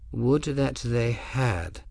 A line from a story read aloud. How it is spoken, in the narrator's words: Albion said quietly